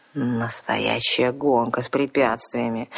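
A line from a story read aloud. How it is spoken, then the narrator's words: Dazed groaning. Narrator (Russian): стонал вампир, осоловело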